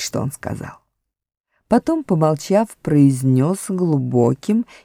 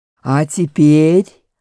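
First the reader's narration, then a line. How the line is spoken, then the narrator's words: Much louder, growling. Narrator (Russian): произнес Аслан гораздо громче, и в голосе его слышалось рычание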